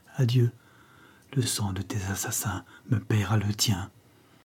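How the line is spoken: Murmured. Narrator (French): murmura-t-elle

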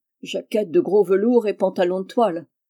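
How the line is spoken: Grumbled. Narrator (French): grommela-t-il

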